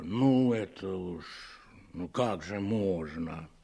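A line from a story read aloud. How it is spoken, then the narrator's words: Quiet, shaken. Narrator (Russian): уполномоченный заметно побледнел, сказал негромко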